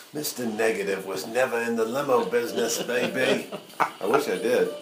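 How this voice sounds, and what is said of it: Put-on accent. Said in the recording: “I love that accent. You're going to go places with that accent.”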